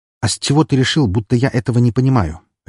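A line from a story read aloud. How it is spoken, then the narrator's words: Sharp question. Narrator (Russian): резко спросил я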